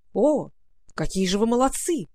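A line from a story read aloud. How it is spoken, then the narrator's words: Exclaiming knight. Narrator (Russian): воскликнул яшмовый рыцарь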